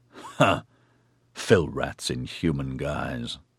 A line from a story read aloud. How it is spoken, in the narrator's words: Cetasis grunted